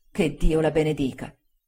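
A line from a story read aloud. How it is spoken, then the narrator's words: Tearful murmur. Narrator (Italian): Si mise di nuovo a piangere, mormorando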